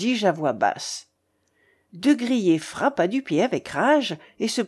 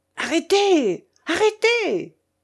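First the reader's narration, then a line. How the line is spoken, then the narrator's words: Frantic shouting. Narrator (French): me criait le général hors de lui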